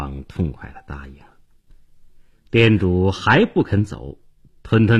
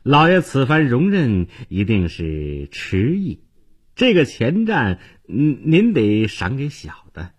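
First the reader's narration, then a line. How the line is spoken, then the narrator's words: Miserable forced smile. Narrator (Chinese): 店家脸上堆起惨笑，接着说道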